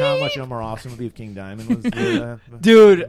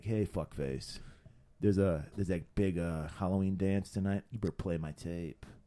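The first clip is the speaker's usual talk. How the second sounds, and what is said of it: Sexy, seductive character voice. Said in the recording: “No, he did it in a sexy voice like that.”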